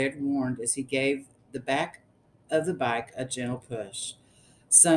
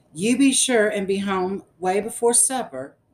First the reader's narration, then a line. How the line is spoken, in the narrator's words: Mamma hollered